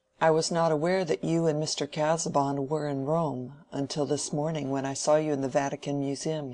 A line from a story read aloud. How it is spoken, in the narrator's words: he said